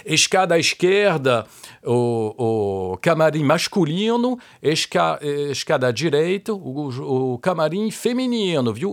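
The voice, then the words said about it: Loud booming stentorian voice. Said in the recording (French): “je prends ma voix de stentor”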